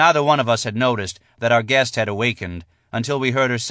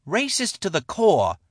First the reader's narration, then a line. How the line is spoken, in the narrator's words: Shala shouted, beating her fists against my chest